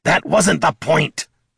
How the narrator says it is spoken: Bert barked

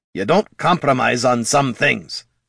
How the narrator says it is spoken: growled Gorm

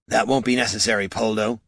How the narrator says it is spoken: snapped

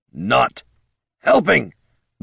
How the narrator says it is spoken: snarled

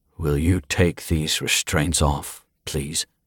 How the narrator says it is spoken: evenly asked

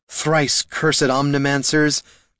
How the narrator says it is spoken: cried Laruna, staggering back up the stairs

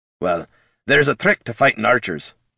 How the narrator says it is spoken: Gorm growled

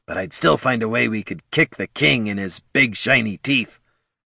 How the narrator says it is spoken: grumbled Bert

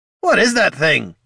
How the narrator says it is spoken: Gorm shouted

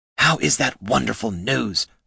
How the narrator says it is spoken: Heraldin hissed

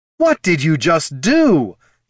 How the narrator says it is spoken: yelled Laruna

